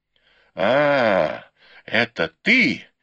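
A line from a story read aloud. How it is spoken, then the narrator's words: Sharp breathless exclamation. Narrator (Russian): резким голосом воскликнула матушка Дзя, едва успев перевести дух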